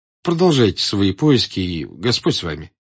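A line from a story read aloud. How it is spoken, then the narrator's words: Plain. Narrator (Russian): сказал фокусник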